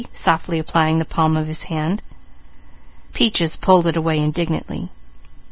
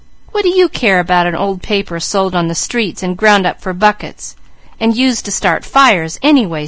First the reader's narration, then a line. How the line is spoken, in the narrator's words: scoffed Mickey